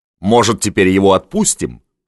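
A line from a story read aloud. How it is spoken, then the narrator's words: Plain. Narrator (Russian): спросил Левицкий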